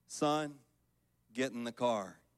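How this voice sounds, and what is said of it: Low quoted voice. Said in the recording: “in a low voice”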